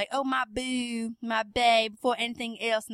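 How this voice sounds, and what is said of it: Put-on Black American accent. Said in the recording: “the whole black accent”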